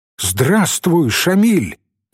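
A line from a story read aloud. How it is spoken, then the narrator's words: Shouting over mockery. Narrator (Russian): крикнул председатель, как бы заглушая насмешку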